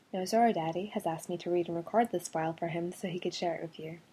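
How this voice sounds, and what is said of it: Scottish accent. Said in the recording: “yes, this really is my accent. It's actually a Scottish accent”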